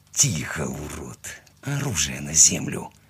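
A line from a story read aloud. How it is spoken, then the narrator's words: Hissed into ear. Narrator (Russian): прошипел я ему в ухо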